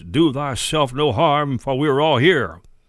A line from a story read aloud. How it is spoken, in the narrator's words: Paul cried with a loud voice